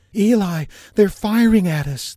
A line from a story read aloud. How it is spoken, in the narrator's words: the woman screamed